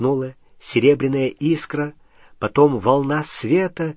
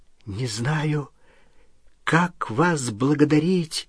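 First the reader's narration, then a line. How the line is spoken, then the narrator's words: Trembling voice. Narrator (Russian): дрожащим голосом сказал Рон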